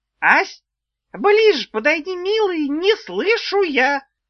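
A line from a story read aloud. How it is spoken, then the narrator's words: Squeaked, little old woman. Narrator (Russian): Снова пропищала старушонка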